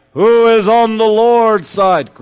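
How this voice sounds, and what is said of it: Charlton Heston impression. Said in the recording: “Great Charlton and Heston impression.”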